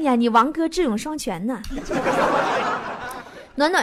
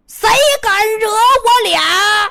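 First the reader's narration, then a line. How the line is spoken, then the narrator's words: Fierce angry shout. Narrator (Chinese): 王哥气势汹汹的 满脸怒气，冲全场喊了一句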